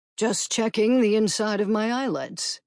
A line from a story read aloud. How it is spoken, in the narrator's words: he said, and yawned